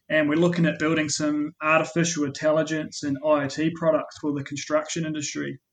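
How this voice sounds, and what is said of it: New Zealand accent. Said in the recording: “you may have picked up my accent, and I was born in New Zealand”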